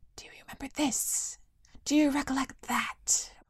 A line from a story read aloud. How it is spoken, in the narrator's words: whispered the faces